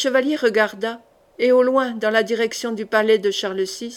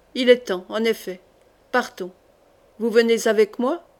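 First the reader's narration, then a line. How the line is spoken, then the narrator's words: Cold. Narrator (French): dit-il froidement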